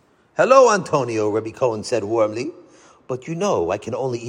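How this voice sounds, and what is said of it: Usual voice. Nothing is said of it.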